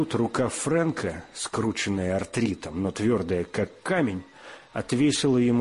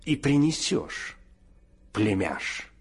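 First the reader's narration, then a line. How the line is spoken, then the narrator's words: Through gritted teeth. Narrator (Russian): процедил он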